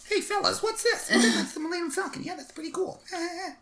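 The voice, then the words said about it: Imitates another person's voice. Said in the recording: “my very bad Jay Leno impression”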